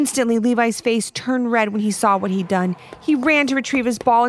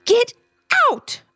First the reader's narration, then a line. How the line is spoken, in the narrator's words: Ivy screamed